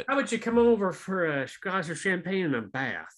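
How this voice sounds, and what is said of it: Put-on Southern accent. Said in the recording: “that was the Southern accent”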